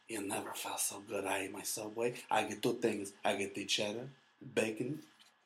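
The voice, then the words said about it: Put-on Mexican accent. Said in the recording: “I don't know why I added that accent ... Mexican reenactment”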